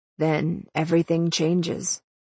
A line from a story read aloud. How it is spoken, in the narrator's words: he said quietly